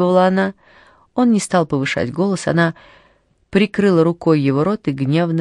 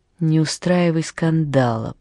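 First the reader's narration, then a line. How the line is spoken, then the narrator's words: Whisper. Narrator (Russian): прошептал Роже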